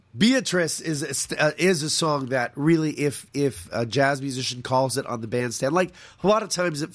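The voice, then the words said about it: Raspy voice. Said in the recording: “I apologize for my raspy voice.”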